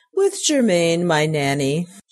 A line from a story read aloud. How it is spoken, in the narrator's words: laughed